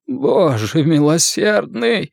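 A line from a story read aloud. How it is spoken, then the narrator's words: Groaning, male. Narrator (Russian): простонал медик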